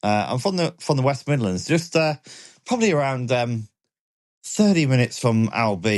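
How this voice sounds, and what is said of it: Usual voice. Nothing is said of it.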